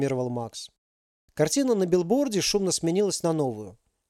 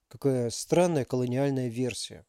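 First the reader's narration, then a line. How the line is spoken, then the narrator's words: Mutter. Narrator (Russian): пробормотал Макс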